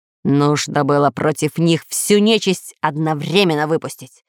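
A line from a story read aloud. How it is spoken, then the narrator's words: Lord speaking through gritted teeth. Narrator (Russian): процедил сквозь зубы повелитель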